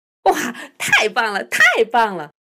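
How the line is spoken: Loud laughter. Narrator (Chinese): 盖比大声笑出来

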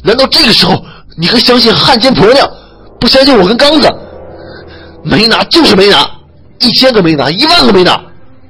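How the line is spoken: Angry shout. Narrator (Chinese): 王强 愤怒的叫了起来

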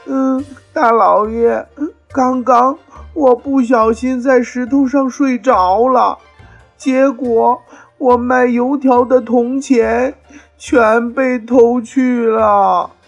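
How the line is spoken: Crying. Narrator (Chinese): 张小友哭着对包公说

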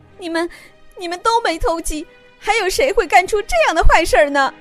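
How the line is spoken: Anxious clucking crying. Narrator (Chinese): 母鸡大婶儿急得咯咯咯咯咯咯的哭了起来

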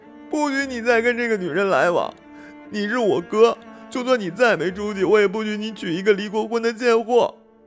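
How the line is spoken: Tearful yelling. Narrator (Chinese): 白小一洒着泪水，大吼大叫

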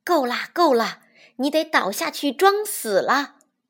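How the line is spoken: Soft. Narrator (Chinese): 武松轻声跟老虎说

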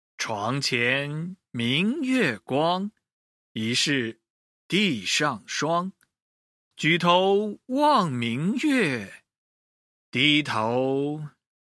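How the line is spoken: Reciting poetry. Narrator (Chinese): 吟诵道

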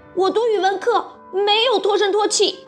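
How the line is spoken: Loud shout. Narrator (Chinese): 马小跳大喊道

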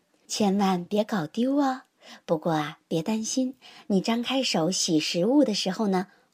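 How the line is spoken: Joking. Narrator (Chinese): 她开玩笑的对琪琪说

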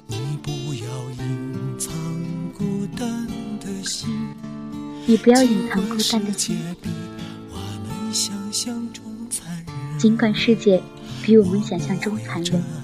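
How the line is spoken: Hoarse voice. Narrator (Chinese): 耳边传来嘶哑的声音

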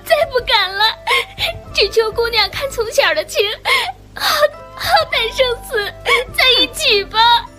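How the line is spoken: Tearful pleading. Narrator (Chinese): 日华一听就跪了，哭求

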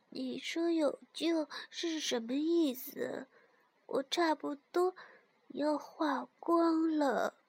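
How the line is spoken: Quiet, weak. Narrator (Chinese): 雪人小声地说

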